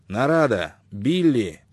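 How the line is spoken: Sharp shout. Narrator (Russian): крикнул Шелдон резким голосом

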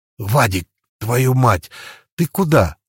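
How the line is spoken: Hissed, held-back shout. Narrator (Russian): Я скорее зашипел, чем крикнул, пытаясь не привлекать лишнего внимания

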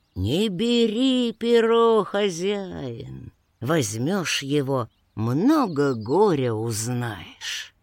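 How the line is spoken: Horse speaking. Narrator (Russian): конь ему и говорит

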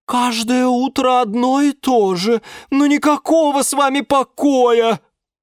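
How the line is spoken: Sigh from above. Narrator (Russian): вздохнула с потолка Лиана Диана

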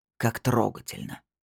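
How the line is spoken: Deep sigh. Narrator (Russian): Снейдер глубоко вздохнул

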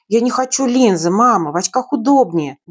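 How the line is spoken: Grumbling. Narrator (Russian): бурчала я

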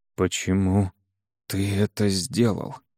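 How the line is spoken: Hoarse question. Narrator (Russian): хрипло не спросил

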